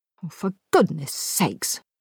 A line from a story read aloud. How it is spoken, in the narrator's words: grumbled Chris